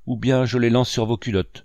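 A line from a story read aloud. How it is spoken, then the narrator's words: Exclaiming. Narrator (French): s'écria leur maître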